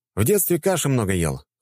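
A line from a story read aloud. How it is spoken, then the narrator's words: Wry snort. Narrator (Russian): хмыкнул я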